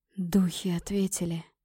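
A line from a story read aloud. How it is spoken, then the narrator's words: Hoarse, trembling, holding back sobs. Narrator (Russian): прохрипел он, и его обычно твердый голос дрожал от сдерживаемых рыданий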